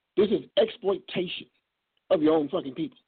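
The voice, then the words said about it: Angry, heated speech. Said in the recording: “if I sound angry, that's because I am”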